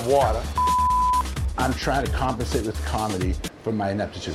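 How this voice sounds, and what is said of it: Strong Boston accent. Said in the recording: “his Boston accent back in full force”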